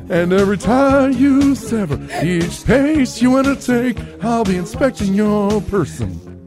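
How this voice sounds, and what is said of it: Sung in Hank Hill cartoon voice. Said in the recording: “And now it's turning to Hank Hill. ... You turned into Hank Hill. ... Hank Hill doing Sting is what that just turned into.”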